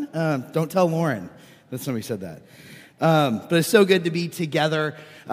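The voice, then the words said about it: Hoarse, froggy voice. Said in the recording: “As you can tell from my voice, I'm a little under the weather. So sorry you get frog voice today, or radio voice, or my wife's voice”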